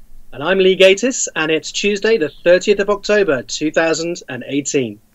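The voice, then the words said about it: English accent. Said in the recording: “You're going to recognize the accent ... over in England”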